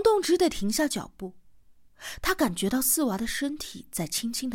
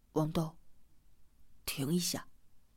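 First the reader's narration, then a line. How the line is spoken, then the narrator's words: Low voice. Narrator (Chinese): 四娃低声的说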